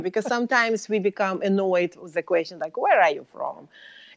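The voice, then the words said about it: Eastern European accent in English. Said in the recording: “As you hear my accent, I'm not native born in the United States. ... So I was born in Soviet Union”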